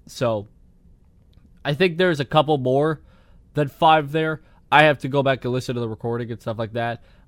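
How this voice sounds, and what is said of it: Strained voice, losing it. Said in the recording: “losing my voice. I'm noticing this as I'm speaking. I'm losing my voice because I've been getting sick again.”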